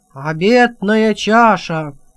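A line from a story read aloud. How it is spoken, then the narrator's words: Roaring baron. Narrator (Russian): взревел барон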